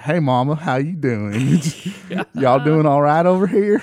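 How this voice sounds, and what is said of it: Southern drawl. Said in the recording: “I speak with a drawl. When I get around my family, it comes out. ... It comes out bad, man.”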